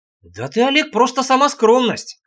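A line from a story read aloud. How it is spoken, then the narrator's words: Wry snort. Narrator (Russian): хмыкнул я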